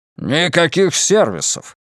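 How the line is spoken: Barked. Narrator (Russian): рявкнул Стивен

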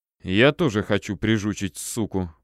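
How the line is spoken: Through gritted teeth. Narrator (Russian): процедил Гоша

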